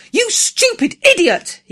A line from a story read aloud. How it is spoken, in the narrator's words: he cried